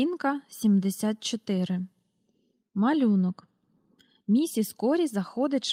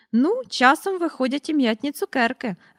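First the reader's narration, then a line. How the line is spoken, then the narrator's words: Cheerful. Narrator (Ukrainian): радісно сказала місіс Корі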